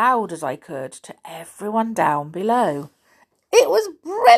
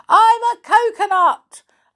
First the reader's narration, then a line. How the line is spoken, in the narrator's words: I shouted